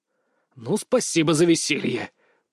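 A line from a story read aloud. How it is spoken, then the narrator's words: Growled. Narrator (Russian): прорычал я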